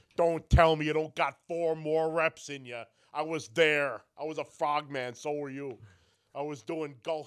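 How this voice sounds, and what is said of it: Jesse Ventura impression. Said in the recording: “It's like Karrion Kross did with Jesse the Body Ventura. ... good impression.”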